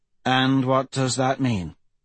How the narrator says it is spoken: Sori sighed

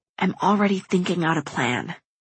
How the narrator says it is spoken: I rasp

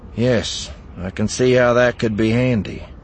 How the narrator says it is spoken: Eli said dryly

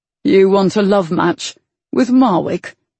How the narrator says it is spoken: He scoffed

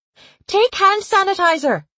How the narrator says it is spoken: the woman yelled

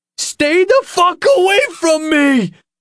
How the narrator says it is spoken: the kid yelled

